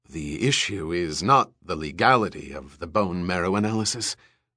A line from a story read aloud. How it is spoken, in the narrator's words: Eldon Rosen said huskily